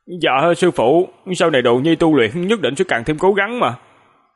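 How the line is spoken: Angry. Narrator (Vietnamese): Hàn Lập tức giận nói

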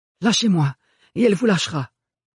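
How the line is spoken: Hoarse voice. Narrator (French): promit Ophélie d'une voix enrouée

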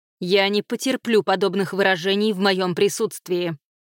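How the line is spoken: Barked again. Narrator (Russian): снова рявкнула Беннет

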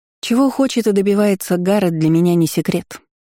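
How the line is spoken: Calm. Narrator (Russian): спокойно ответила

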